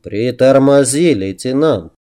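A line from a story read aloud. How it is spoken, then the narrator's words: Advising. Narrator (Russian): посоветовал он, мягко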